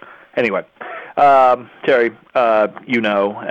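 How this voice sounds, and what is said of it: Usual voice. Nothing is said of it.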